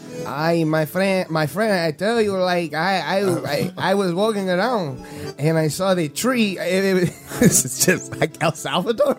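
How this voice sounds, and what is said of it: Put-on Dominican accent. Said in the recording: “You're doing a Dominican accent.”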